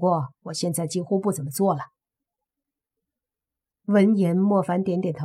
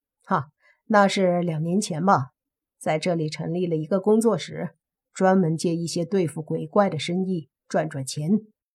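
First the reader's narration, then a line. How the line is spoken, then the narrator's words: Smiling. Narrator (Chinese): 叶枫笑了笑说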